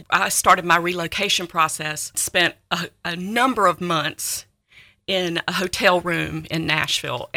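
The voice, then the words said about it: North Carolina Southern accent. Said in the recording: “you can tell from my accent. It is a North Carolina accent, but it blends well with Tennessee”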